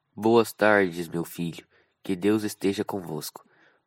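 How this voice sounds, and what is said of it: Priest-like character voice. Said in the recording (Portuguese): “começou a falar com voz de padre”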